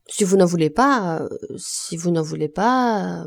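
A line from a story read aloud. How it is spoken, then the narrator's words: Stammering, choked with passion. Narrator (French): bégaya Lantier, que la passion étranglait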